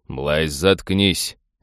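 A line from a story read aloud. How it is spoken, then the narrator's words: Irritated reflexive growl. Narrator (Russian): автоматически рыкнул крайне недовольный нарушением дисциплины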